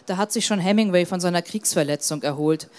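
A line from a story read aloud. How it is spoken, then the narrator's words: Plain. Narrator (German): sagte Kurt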